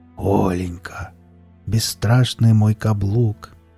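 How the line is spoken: Tender whisper. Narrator (Russian): шептал он нежно

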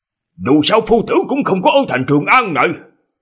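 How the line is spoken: Exclamation. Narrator (Vietnamese): Nhan Sắc kêu lên

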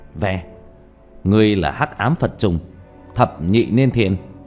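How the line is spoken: Cold shout. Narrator (Vietnamese): lạnh giọng hét lên

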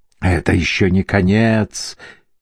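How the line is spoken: Growled. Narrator (Russian): прорычал голос

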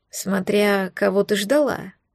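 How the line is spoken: Snorted reply. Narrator (Russian): хмыкнули в ответ

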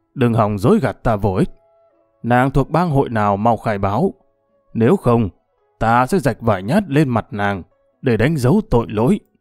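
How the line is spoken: Menacing growl. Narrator (Vietnamese): Đại Hổ gằn giọng

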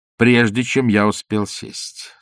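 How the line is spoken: Menacing question. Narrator (Russian): спросил командор грозно

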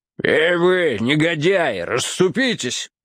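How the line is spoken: Growling. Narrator (Russian): прорычал какой-то ломовой извозчик

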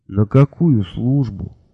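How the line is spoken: Sleepy reply. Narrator (Russian): сонно отозвался Мелифару

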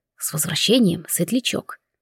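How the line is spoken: Soft whisper. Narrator (Russian): тихо прошептал

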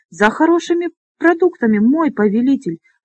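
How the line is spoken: Trembling stammer. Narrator (Russian): пролепетал он дрожащим голосом

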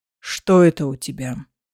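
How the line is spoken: Menacingly quiet question. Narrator (Russian): угрожающе тихим голосом спросил

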